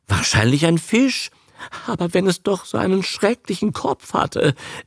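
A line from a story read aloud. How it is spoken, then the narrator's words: Whimpering. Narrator (German): wimmert der Darling und bohrt sich mit der nassen Nase in Abes Brust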